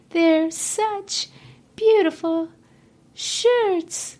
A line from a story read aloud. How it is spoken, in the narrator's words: she sobbed, her voice muffled in the thick folds